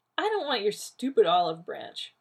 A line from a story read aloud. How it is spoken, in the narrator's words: Rodney said scornfully